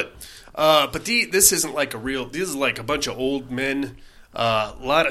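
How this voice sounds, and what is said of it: Usual voice. Nothing is said of it.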